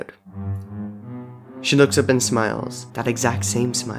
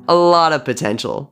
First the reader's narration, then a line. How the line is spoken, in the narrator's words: agrees, chuckling to himself